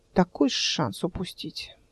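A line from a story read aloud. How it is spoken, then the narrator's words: Sighing. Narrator (Russian): вздохнул Клим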